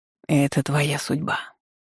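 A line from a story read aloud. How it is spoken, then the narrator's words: Whisper in ear. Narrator (Russian): шепнул на ухо ветер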